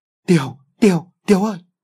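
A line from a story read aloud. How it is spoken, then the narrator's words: Fake wailing. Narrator (Vietnamese): Thuận giả vờ khóc lóc kêu gào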